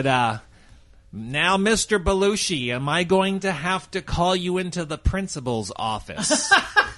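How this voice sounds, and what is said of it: David Lynch impression. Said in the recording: “I'm going to do this in my David Lynch impression”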